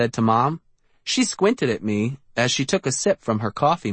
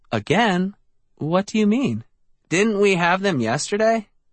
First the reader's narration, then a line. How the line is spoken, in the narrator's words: Eddie laughed